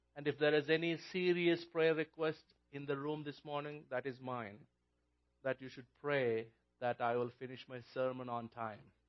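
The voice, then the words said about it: Non-native English accent. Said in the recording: “I'm not a native English speaker ... my accent”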